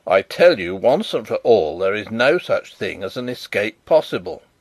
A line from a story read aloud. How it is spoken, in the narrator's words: said the spy firmly